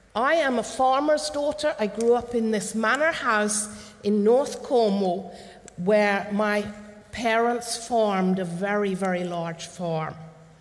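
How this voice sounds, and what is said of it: Cornish English accent. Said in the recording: “this is where you understand a little bit of this accent. My childhood was in Cornwall.”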